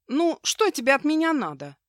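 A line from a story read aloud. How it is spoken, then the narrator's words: Blurted question. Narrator (Russian): Аврора выпалив вопрос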